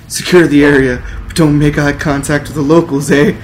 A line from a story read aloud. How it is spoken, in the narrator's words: yelled the Prime Mountie